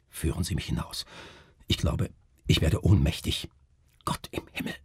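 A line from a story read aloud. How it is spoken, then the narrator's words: Whispered. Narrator (German): flüsterte Melchior Kreuzer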